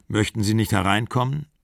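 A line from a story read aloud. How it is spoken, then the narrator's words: Plain. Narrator (German): fragte er sie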